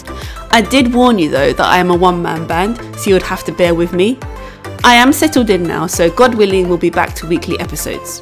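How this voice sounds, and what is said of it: British accent. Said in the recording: “As you might be able to tell from my accent, I am British.”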